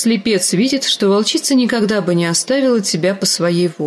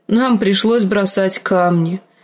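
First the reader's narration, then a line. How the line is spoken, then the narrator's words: Unhappy voice. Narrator (Russian): сказала Ария несчастным голосом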